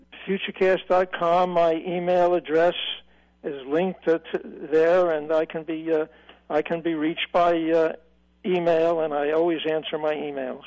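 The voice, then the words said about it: Slight Brooklyn New York accent. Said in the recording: “I sense maybe a small accent in your voice ... from the New York, New Jersey area ... I'm from Brooklyn”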